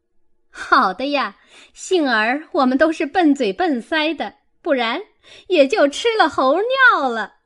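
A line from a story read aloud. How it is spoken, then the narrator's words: Laughing. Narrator (Chinese): 凤姐儿笑道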